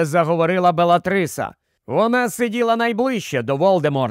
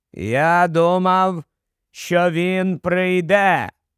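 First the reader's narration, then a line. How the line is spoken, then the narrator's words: High clear voice. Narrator (Ukrainian): прорік Волдеморт своїм високим чітким голосом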